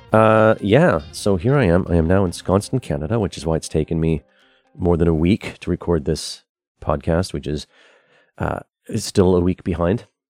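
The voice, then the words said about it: Froggy, rough morning voice. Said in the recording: “it is about 5:30 in the morning, so my voice is a bit froggy.”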